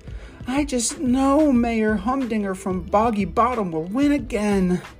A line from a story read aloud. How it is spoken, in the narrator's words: Mayor Goodway groaned